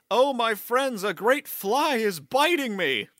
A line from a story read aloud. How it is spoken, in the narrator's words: felt it prick him, he called out to his fellows